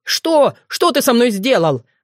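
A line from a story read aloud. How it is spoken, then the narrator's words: Yell. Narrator (Russian): завопил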